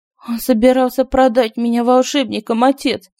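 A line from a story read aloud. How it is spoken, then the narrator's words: Trembling exclamation. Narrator (Russian): воскликнула она дрожащим голосом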